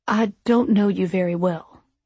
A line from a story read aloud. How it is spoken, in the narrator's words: he said slowly, as if very carefully choosing his words